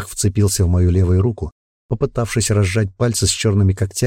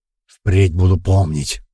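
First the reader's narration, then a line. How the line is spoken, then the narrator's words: Hoarse wheeze. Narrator (Russian): прохрипел он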